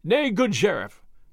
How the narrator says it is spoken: cried he, leaping up again when the blow had passed

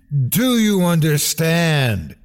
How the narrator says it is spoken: she screamed in his mind

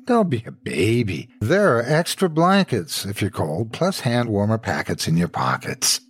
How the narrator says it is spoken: Mike snorted

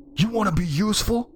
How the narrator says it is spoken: I yelled

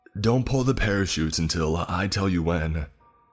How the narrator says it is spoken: Trevor shouted above the roar of the wind

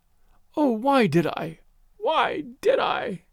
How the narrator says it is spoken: she was moaning

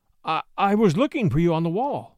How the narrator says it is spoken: he stammered

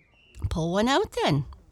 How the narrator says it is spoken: said Peter kindly

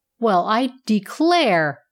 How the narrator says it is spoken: cried the bellows

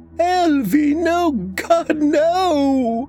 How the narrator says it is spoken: screamed that over and over

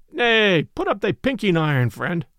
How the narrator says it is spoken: quoth Robin, standing up with tears of laughter still on his cheeks

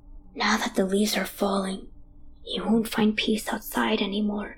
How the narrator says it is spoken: he whispers

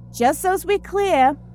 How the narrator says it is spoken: shouted

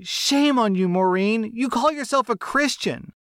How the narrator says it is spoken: my poor mom loses it at this point and begins screaming

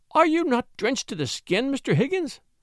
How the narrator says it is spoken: cried Mrs

